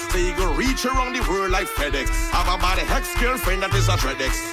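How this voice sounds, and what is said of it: Trinidadian dialect, patois. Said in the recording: “I coming with me Trinilingo. You mightn't understand me Trinilingo... I ain't changing my dialect, my patois”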